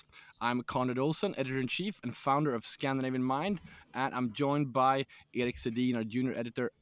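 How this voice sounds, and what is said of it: Raspy, hoarse voice. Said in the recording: “My voice is not with me today ... your raspy voice”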